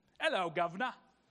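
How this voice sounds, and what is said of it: Put-on British accent. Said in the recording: “You didn't think a Mexican could make that accent. It's the best I can do. I'm working on it. ... I've never been to the other side of the pond”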